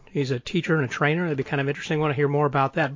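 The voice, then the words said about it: American accent. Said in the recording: “Lovely to hear your accent. We have a great affiliation with our Americans there.”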